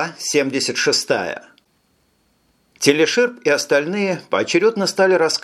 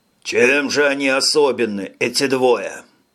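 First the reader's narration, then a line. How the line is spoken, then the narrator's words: Weary growl. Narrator (Russian): прорычал утомленный Арикис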